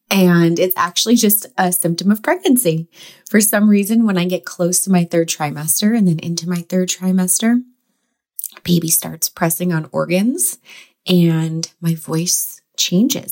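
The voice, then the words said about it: Slightly hoarse voice. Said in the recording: “my voice feels a little hoarse right now”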